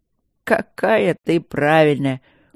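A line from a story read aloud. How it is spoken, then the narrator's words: Laughing. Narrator (Russian): он засмеялся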